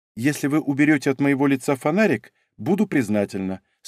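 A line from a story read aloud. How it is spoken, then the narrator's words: Calm reply. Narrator (Russian): спокойно ответила девушка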